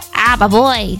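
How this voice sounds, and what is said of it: Minion character voice impression. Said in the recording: “best impression of a Minion ... I can't really do a good impression of a Minion ... That's my best one”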